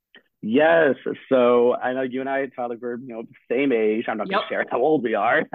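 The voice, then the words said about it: Voice sounds a little weird. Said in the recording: “sorry about the voice. If I sound a little weird, allergies are kind of getting to me.”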